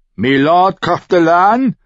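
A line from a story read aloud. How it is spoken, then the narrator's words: Mercenary calling out. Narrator (German): rief der Söldner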